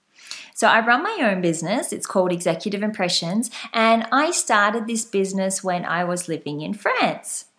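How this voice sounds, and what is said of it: Slight Australian accent. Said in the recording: “I'm Australian. You might have guessed from my slight accent.”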